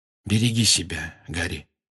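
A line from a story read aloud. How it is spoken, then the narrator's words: Quiet. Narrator (Russian): негромко сказал Люпин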